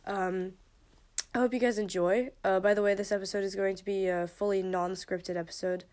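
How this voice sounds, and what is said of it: Congested, stuffy-nosed voice. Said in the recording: “my sniffy nose ... my voice sounds a bit clogged, that's just because I have a bit of a cold”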